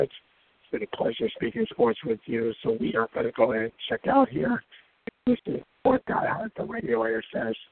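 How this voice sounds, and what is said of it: Hoarse voice. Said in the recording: “my hoarse voice tonight”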